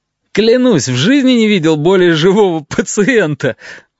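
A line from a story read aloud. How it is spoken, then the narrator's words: Delighted exclamation. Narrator (Russian): восторженно воскликнул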